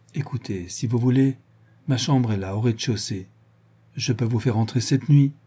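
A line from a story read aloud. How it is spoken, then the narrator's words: Stammering, uncertain voice. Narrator (French): de Guibray, elle balbutia d'une voix incertaine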